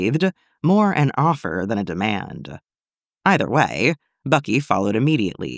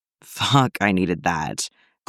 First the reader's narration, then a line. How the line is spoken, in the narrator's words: Clint groaned